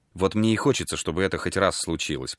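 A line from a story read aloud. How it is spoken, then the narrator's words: Mutter. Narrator (Russian): пробормотал Берт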